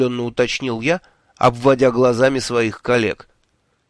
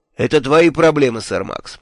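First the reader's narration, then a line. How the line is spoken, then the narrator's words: Dry, curt. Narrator (Russian): сухо сказал шеф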